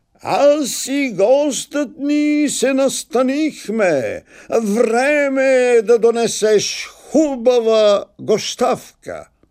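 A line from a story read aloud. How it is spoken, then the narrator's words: Calling out. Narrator (Bulgarian): извикал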